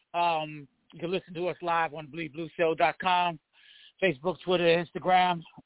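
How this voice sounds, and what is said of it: Breathless, out-of-breath speech. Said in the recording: “I'm out of breath.”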